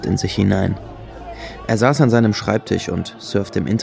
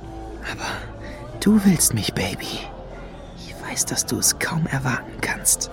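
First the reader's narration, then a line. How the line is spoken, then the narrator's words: Whispering. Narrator (German): flüsterte er Lady Luna zu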